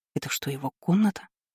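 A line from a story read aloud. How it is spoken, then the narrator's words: Whispered. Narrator (Russian): прошептала она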